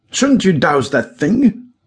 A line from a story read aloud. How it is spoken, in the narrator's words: shouted Kohler nervously